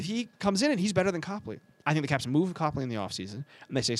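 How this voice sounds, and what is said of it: Usual voice. Nothing is said of it.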